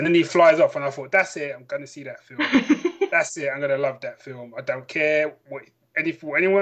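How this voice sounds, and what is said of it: Usual voice. Nothing is said of it.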